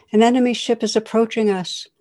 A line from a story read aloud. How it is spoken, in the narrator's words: a soldier rushes to him and exclaims